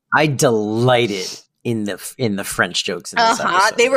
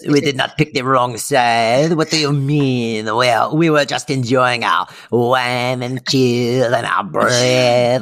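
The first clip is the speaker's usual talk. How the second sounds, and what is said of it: Fake French accent. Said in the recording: “big fake French accent”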